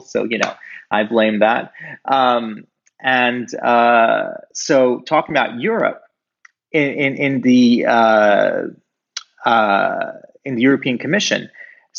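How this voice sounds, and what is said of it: American accent. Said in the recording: “I know I have this American accent. I'm not American.”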